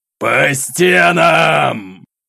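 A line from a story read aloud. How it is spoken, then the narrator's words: Roar. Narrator (Russian): Взревел атаман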